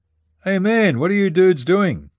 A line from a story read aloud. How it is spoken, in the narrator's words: One yelled